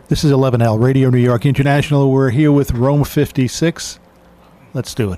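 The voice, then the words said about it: Smooth announcer-style radio voice. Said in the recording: “You have a great voice. Radio voice.”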